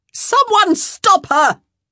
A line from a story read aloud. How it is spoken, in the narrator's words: Araminta screamed